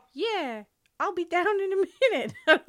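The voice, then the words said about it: Squeaky cartoon mouse voice. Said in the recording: “gave her the voice of that little blue mouse from Cat Dog”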